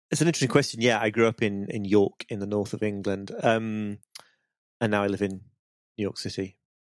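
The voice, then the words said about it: British accent. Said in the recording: “based on your accent, I assume you grew up in the UK”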